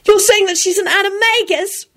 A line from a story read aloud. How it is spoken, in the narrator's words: Rosie wailed at him